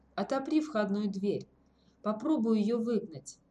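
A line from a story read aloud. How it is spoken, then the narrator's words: Quiet command. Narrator (Russian): Тимур тихонько велел Ворожцову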